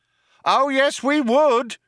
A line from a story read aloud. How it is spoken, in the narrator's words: shouted the cop